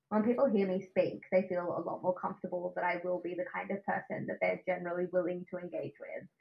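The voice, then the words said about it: Australian accent. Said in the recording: “my Australian accent ... if I speak like this”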